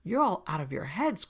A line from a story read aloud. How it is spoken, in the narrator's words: cried Stryker